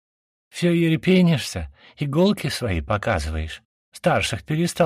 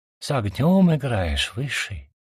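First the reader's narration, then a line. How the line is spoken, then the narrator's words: Sighing. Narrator (Russian): вздохнула она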